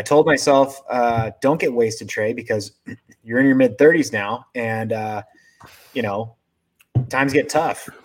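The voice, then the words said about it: Slightly hoarse voice. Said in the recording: “My voice is a little hoarse,... was screaming my head off.”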